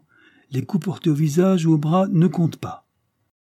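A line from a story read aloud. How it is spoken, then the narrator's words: Cheerful. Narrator (French): dit-il gaiement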